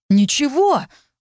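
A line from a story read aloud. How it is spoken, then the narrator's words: Sincerely indignant exclamation. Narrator (Russian): воскликнул Орит с таким искренним возмущением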